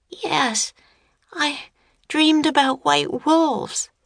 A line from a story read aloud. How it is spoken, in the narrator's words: Annie murmured